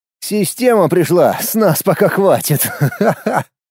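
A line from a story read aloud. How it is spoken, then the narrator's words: Laughing. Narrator (Russian): Засмеялся я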